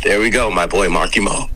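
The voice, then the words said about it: American accent. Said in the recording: “your two voices ... in that lovely American accent”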